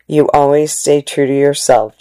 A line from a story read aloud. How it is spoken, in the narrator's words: Chang said